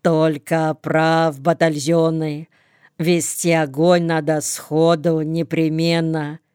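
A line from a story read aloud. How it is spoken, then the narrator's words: Calm confident bass. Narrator (Russian): произносит Чураков спокойным баском, как-то уверенно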